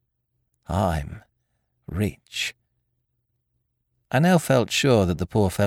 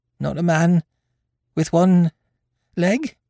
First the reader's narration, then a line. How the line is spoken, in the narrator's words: He gasped